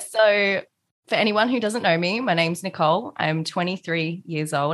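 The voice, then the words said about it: Australian accent. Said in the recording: “Australian accent. I have an Aussie on ... it's definitely an Aussie accent ... sometimes sounds a bit bogan”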